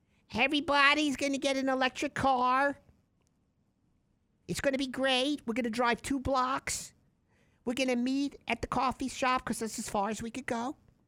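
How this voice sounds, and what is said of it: Imitates another person's voice. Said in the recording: “I can do it as Janet Yellen. ... As Janet Yellen.”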